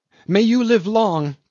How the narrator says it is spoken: cried Tommy Tom

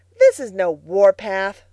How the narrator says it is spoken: scoffed Billy

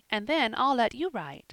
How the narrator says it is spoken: said eagerly

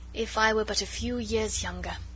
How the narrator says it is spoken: added the old diplomat with a sigh

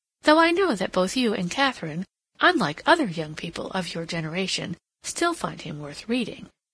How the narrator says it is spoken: Hilbery continued with a little laugh

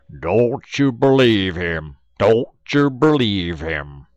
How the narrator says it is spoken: Den old Brer Bullfrog, he holler back

